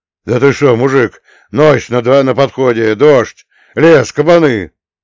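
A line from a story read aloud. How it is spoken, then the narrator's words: Shouted. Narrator (Russian): закричал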